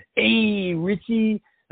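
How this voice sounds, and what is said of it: Very poor Fonzie impression. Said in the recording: “That was the worst impression in the world.”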